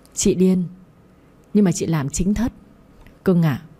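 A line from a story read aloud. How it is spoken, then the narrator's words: Gentle smiling reply. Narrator (Vietnamese): Dù bị chửi, nhưng tôi vẫn mỉm cười đáp lại nhẹ nhàng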